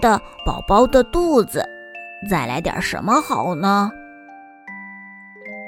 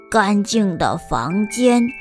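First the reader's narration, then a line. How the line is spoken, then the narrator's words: Exclaiming. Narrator (Chinese): 卢卡感叹道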